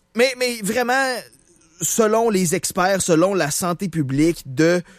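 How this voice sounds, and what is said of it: Usual voice. Nothing is said of it.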